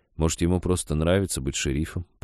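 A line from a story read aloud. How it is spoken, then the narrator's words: Grumbling. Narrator (Russian): проворчал Женька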